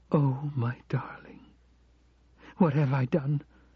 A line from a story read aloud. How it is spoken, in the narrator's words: she said, her eyes now pleading